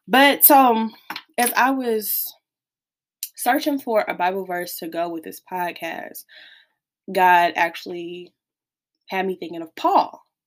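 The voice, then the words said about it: Voice sounds a bit unwell. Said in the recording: “excuse my voice, because I'm a little bit under the weather”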